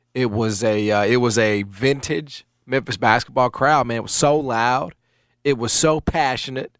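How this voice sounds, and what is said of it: Strained voice cutting in and out. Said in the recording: “you can sort of hear that my voice is kind of coming in and out because I was in it, man”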